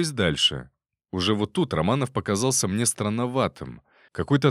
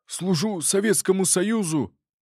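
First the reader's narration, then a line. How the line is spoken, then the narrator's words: Strangled bark. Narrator (Russian): Придушенным голосом рявкнул Левченко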